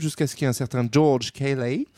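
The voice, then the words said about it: Put-on English accent. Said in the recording (French): “vous avez compris grâce à mon accent ... Je je sais pas pourquoi tu as fait un accent anglais”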